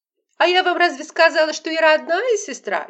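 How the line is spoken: Shrill, affected exclamation. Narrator (Russian): визгливым, ненатуральным голосом воскликнула Лола

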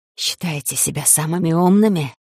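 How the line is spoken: Hissing in ear, spitting. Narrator (Russian): зашипели мне на ухо, щедро брызгая слюной

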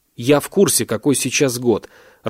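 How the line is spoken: Irritated interruption. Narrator (Russian): раздраженно перебил Ахмальцев

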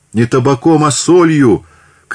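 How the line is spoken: Women shouting. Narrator (Russian): кричали некурящие бабы

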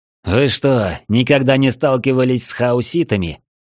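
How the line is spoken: Bursting out laughing. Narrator (Russian): Не выдержал Найджел и захохотал

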